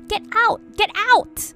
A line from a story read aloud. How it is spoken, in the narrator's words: my sister screaming and screaming